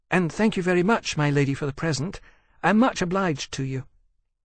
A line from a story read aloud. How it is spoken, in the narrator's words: added earnestly